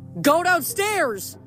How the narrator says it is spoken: Leo yelled something, probably

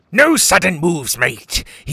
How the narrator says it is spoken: he roared

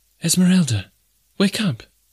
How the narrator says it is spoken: cried

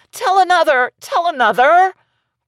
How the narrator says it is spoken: the children clapped their hands and cried

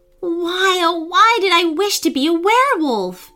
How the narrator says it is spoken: she wailed

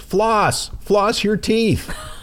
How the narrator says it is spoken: yells

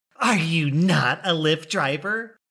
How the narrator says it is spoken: someone angrily yell

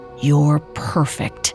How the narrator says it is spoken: she could hear the smile in his voice as he whispered

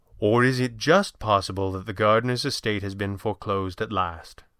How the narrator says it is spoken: Fenwick asked calmly

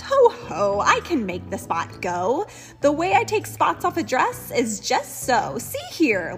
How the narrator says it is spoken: laughed the cat

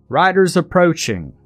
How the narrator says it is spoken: came a shout from a soldier

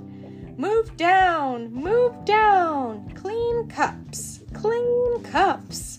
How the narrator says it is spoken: the March Hare cried out

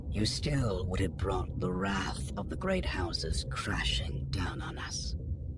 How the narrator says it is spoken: he added, his voice dropping to a low and dangerous whisper

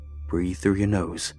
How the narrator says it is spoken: he said

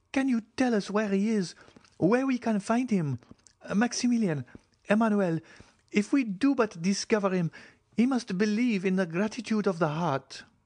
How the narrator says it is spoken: cried Julie

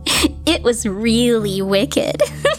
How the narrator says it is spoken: Rosita said with a giggle

